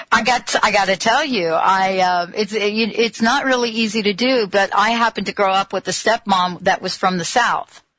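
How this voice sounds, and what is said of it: New Jersey accent with Southern drawl. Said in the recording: “you take a New York, New Jersey accent, you put two cups of Southern draw in it, and you get what you're hearing right now”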